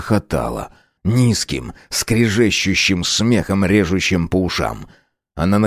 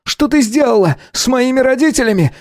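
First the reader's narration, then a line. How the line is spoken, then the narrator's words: Angry shout. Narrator (Russian): закричал он на женщину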